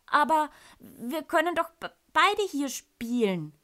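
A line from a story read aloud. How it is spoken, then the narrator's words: Stammering. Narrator (German): stottere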